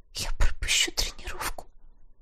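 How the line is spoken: Barely audible whisper. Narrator (Russian): шепчу еле слышно

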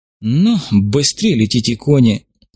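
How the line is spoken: Sighing. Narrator (Russian): вздохнул Иван Кузьмич

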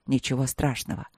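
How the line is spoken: Grumbled mutter. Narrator (Russian): буркнул Вэйши

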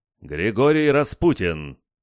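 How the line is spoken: Loud announcement. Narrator (Russian): Дворецкий громко объявил меня

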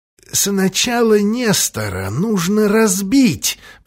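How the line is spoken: Hoarse wheeze. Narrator (Russian): просипел Джефферсон

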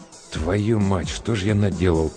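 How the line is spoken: Gruff mutter. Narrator (Russian): буркнул Гуляев

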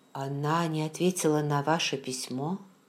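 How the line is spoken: Quiet question. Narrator (Russian): тихо спросила

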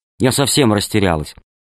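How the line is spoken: Angry reply. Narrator (Russian): ответил сердито

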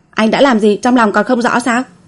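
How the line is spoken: Bold, venting anger. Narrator (Vietnamese): Đường Du mím môi, lấy hết can đảm, đem sự tức giận chưa kịp bộc phát từ trưa xả ra

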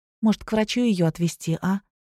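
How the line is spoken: Timid suggestion. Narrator (Russian): робко предложила Вика

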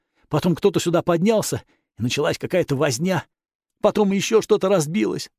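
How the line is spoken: Timid babbling. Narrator (Russian): пролепетал монах

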